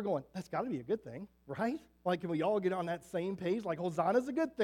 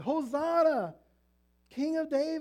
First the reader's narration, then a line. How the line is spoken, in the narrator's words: hollering